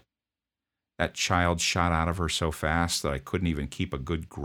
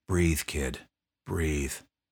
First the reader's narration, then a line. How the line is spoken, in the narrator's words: I said under my breath